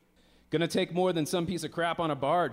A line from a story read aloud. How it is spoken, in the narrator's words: his friend barked